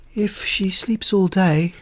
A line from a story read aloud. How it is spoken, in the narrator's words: she said mournfully